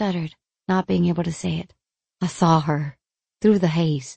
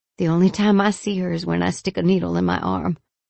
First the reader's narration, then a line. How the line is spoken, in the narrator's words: he scoffed out